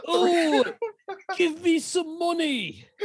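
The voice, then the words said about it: Cartoonish put-on British accent. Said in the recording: “The British accent makes it cartoonish”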